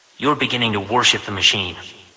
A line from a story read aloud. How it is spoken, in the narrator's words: he said coldly